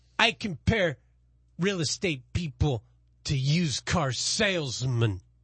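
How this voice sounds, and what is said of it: Put-on New York Brooklyn accent. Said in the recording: “My accent, I don't know if it's from New York, the Bronx, or Missouri. ... A little bit of Italian in there. ... harsh Canossi type. ... That's Brooklyn. ... me and my impressions”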